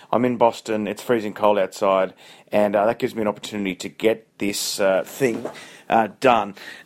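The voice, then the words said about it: Hoarse, losing voice. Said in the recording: “I've lost my voice.”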